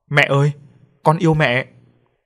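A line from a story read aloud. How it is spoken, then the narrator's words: Loud shout. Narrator (Vietnamese): hét to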